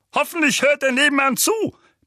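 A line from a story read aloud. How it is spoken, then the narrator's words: Barking. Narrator (German): bellte Onkel Vernon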